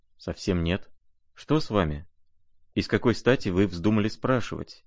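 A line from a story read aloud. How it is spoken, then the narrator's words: Quiet, serious, slightly surprised. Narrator (Russian): ответила она тихо и серьезно, и как бы с некоторым удивлением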